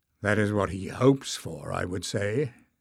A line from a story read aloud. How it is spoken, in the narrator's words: muttered Bowder